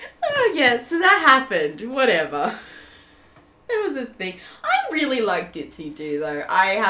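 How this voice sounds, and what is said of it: Usual voice. Nothing is said of it.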